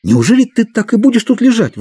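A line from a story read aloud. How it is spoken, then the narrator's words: Exclaiming. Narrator (Russian): воскликнул Мэтчем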